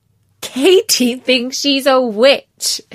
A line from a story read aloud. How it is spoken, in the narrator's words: they laughed